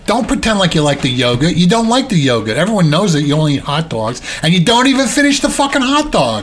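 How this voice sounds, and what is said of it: Imitates another person's voice. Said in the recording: “That's my Rosie Perez impression ... I'm trying to channel Rosie Perez ... That's a really good impression.”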